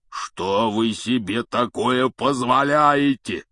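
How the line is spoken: Thunderous roar. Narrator (Russian): прогремел он так, что все трое подпрыгнули

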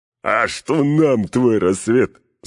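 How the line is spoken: Guffawing from below. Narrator (Russian): захохотали снизу

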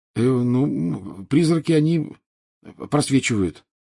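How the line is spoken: Mumbled. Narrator (Russian): промямлил Гарри

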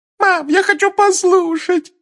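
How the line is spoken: Whining. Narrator (Russian): захныкала Джинни

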